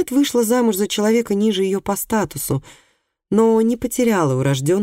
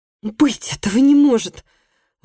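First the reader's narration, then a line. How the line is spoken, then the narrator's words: Exclamation. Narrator (Russian): воскликнула Марка Кристиана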